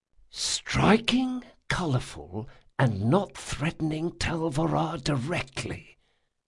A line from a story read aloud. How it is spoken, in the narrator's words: Locke whispered